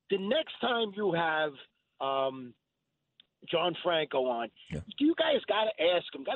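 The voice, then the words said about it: Brooklyn New York accent. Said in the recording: “in Brooklyn ... I like your accent”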